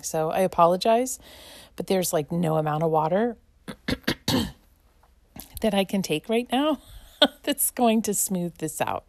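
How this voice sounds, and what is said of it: Scratchy voice with coughing. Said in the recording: “I'm coughing ... it's hard for me to find my voice sometimes, and that involves me coughing ... when my voice gets kind of scratchy.”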